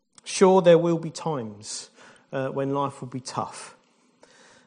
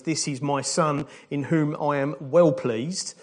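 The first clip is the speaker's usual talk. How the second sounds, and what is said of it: Put-on Essex accent. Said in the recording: “the best Essex accent that you can have is”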